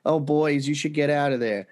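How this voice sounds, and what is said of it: Put-on Jewish New York aunt accent. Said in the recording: “suddenly sound like a Jewish New York aunt ... some weird accent that came out of him”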